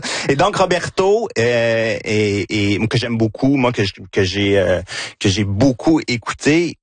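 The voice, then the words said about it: Quebec French regional accent. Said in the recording (French): “mon accent de Victoriaville”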